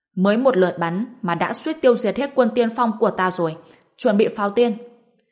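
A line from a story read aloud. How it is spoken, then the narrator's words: Angry, astonished shout. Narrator (Vietnamese): Thiên Đình đại đế ở phía xa thấy thế thì vừa tức vừa ngạc nhiên hét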